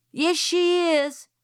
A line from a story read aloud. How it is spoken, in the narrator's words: shouted Francis